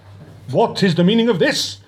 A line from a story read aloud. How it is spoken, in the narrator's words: roared a voice from behind the probationer